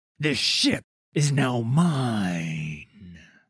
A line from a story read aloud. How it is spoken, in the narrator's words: Gangplank roared, loud enough to be heard over the driving gale